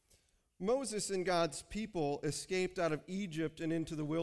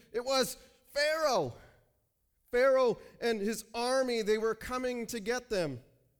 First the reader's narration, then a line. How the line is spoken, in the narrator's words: screamed